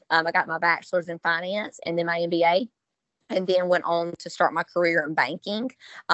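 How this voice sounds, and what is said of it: Southern US accent. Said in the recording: “a southern accent”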